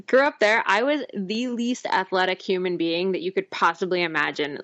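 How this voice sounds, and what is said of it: New Jersey accent. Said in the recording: “I'm a Jersey girl. I grew up in New Jersey. I'm hoping to lose the accent at some point now that I live in Ontario, but it doesn't seem to be happening anytime soon.”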